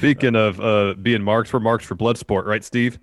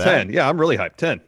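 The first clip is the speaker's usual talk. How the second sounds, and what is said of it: Sarcastic, mock-enthusiastic tone. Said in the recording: “I'm being sarcastic, obviously.”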